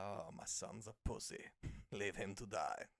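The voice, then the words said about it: Imitates another person's voice, funny accent. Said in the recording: “doing a funny accent ... Excellent voice reference.”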